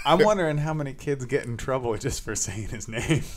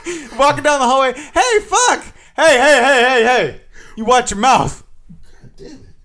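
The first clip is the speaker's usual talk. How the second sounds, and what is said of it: Yelling. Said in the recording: “I'm yelling”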